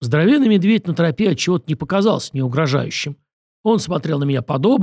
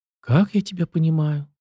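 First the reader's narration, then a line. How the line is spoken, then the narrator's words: Sad drawl. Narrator (Russian): печально протянула Виноградова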